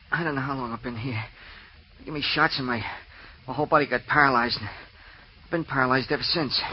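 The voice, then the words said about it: Heavy, labored breathing while speaking. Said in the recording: “Why do you breathe so heavily? Are you out of breath?”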